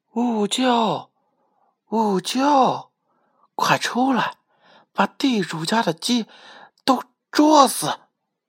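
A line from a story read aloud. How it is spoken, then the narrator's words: Soft rooster call. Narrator (Chinese): 公鸡轻声的叫道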